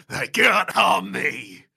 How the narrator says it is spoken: He shouts

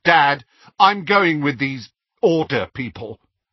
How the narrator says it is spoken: said Dudley in a loud voice

